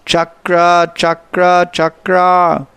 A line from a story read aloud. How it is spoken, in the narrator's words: out of anger and repeatedly shouted